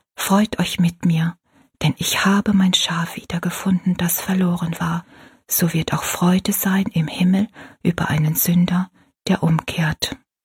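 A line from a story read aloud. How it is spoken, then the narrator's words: Whispering. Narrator (German): mit flüsternder Stimme sagte Rosalie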